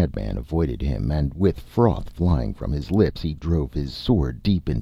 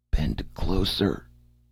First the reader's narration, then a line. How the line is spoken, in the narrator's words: gasped Topal